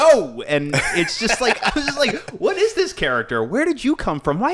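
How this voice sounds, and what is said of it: Usual voice. Nothing is said of it.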